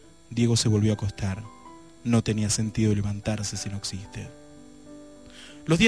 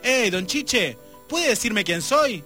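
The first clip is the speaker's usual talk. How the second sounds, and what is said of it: Shouted line in neighborhood accent. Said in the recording (Spanish): “en perfecto acento barrial gritó”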